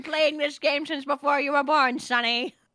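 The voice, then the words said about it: Old grandma voice impression. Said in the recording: “Pretty good grandma impression.”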